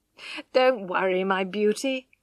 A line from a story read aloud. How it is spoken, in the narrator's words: laughed Alec